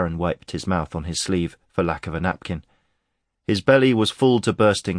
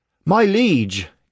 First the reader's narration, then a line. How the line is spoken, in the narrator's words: Cade cried